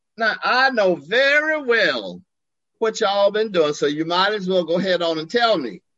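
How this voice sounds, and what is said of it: Quoted voice in southern accent. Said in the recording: “He had a southern accent.”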